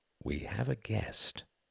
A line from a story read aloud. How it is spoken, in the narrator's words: said Quentin gently